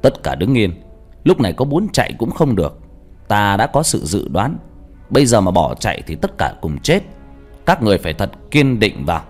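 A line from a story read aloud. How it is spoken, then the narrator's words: Loud shout. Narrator (Vietnamese): Thầy Hữu quát lớn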